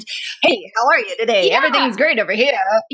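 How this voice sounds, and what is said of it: Put-on cheesy radio voice. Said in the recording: “we somehow turn on our weird like radio voice ... that's my radio voice.”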